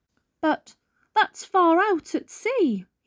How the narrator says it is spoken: he squeaked

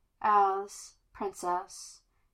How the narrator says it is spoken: he murmured fondly

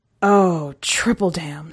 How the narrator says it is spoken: Stephen groaned

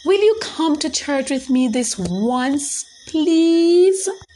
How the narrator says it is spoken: Adriana pleaded with her mother

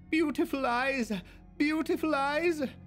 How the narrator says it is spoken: with a piercing shriek of

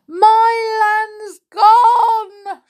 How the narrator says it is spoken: shrieked the saucepan man

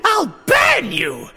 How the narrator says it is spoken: Kotake screeched

